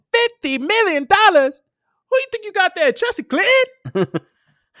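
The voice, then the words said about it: Chris Tucker impression. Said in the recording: “I'm very proud of my Chris Tucker impersonation. ... My Chris Tucker impressions.”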